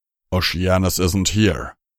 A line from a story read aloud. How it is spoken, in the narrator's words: Tirado growled